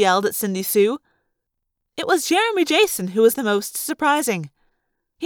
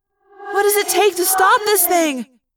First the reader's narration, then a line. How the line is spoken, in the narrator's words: Cassie asked me desperately